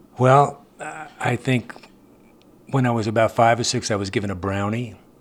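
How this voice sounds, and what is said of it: New York accent. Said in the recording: “I come from New York. ... Hence the accent. ... Yes, the accent. I've not been able to ditch it”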